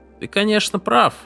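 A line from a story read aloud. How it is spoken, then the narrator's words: Cheerful reply. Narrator (Russian): бодро ответил Деттрингер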